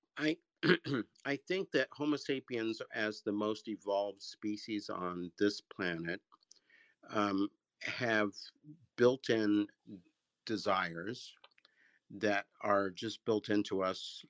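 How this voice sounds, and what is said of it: Voice a little messed up. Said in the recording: “My voice is a little messed up. I'm having an allergy attack here”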